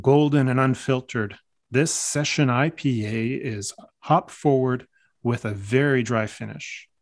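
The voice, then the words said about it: Announcer-style radio voice. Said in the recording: “I should do that with my radio voice.”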